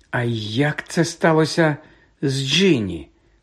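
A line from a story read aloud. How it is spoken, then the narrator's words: Slow question. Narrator (Ukrainian): повільно запитав він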